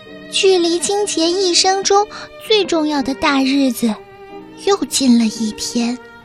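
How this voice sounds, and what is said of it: Quiet, hushed speaking. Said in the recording (Chinese): “莉莉也小声地说”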